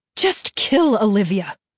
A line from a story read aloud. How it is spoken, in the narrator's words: his mother spat